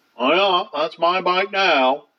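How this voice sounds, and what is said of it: Exaggerated Maine accent. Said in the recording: “most of us don't have that stupid fucking accent ... We don't talk like that.”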